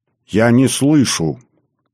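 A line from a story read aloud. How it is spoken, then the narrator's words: Raised irritated voice. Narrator (Russian): повысил голос Максим, раздраженно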